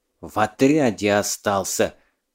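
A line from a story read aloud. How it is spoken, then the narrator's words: Angry hiss. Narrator (Russian): злобно прошипел Бек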